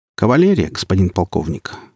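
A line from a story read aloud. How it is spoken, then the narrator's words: Calm reply. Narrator (Russian): спокойно ответил спустя минуту Коротков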